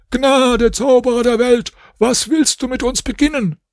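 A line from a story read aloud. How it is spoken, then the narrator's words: Group screaming. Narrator (German): Sie schrien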